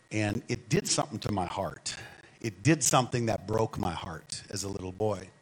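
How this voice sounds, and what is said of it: Minnesota accent. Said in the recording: “my accent, I'm from the north, and so I'm from Minnesota. I try to hide it, but it kind of comes out”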